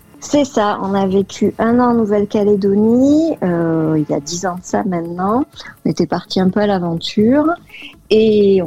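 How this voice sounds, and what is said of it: Lilting southwestern French accent. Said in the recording (French): “ce petit accent chantant qu'on entend dans le fond ... Je te confirme, tu l'as toujours.”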